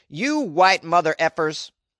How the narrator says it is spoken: he also shouted

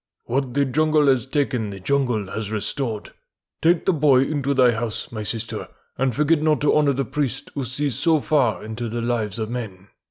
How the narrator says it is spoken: said solemnly

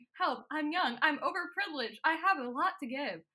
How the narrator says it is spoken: Alfie is inside the sarcophagus, screaming

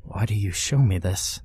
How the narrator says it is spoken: whisper tearfully

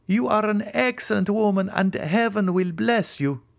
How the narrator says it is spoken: cried I

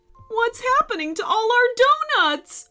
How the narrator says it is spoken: wailed the bakers

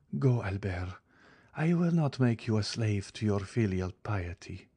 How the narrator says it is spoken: replied Mercedes, sighing

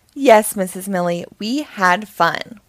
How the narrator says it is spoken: shout

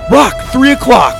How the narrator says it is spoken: Doug shouted

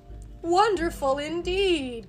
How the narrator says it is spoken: cried Puss

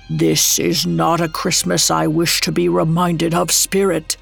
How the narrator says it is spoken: Scrooge croaked out

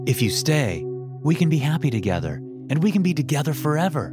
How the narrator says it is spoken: Vincent said excitedly

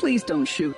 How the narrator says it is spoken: Wend whimpered, making one last plea for his life

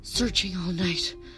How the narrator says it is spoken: gasped

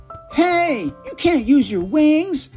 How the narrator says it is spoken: cried

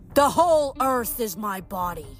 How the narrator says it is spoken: Gaia boomed

